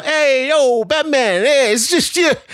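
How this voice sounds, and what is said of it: Over-the-top New York accent. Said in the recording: “his accent went a little way over the top ... He's supposed to be New York, right?”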